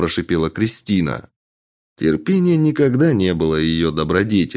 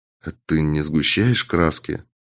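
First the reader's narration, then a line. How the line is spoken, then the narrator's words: Quiet question. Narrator (Russian): тихо спросил стрелок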